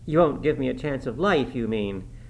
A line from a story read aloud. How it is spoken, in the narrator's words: she said sullenly